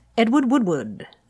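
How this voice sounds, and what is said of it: Posh English accent. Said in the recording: “with a proper accent ... That was excellent ... an Englishman just stepped in ... like the Duke of Edinburgh was here”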